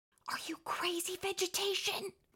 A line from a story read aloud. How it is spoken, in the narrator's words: his mother whispered